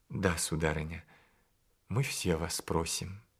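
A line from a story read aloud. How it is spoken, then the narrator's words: Timid request. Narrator (Russian): робко попросил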